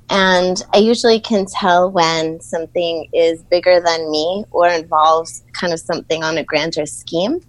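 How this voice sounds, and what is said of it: Brooklyn accent. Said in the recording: “the Brooklyn accent”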